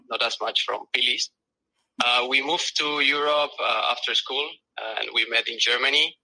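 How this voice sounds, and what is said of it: South American accent. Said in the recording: “we're both from South America. I, I think you can uh, recognize that from my accent”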